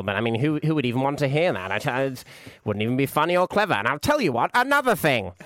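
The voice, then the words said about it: Imitates another person's voice. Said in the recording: “Not as good as my David Mitchell, he said, elegantly doing an impression.”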